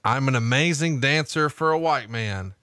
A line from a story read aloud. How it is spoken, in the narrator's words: he shouted over the music